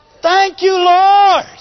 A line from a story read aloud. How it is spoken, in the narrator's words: We want to shout